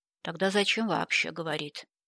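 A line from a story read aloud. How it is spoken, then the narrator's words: Gloomy question. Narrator (Russian): мрачно спросил Джастин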